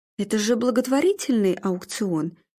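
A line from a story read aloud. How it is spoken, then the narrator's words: Gentle objection. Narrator (Russian): мягко возразил Арнольд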